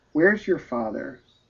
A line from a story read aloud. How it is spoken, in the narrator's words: she asked weakly